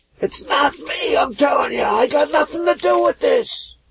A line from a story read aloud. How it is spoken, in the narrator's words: a tiefling leaning out of one of the first floor windows, screaming back